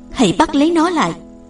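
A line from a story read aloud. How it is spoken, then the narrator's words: Loud shout. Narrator (Vietnamese): Công chúa hét lớn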